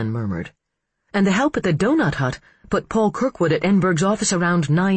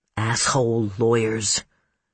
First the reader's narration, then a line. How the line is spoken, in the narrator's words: Mitch muttered